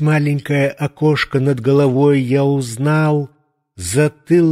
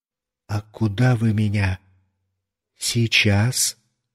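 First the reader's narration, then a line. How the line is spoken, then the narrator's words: Quiet question. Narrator (Russian): спросил я тихо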